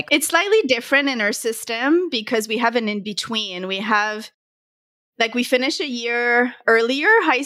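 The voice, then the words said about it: Slight accent. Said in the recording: “You have a bit of an accent.”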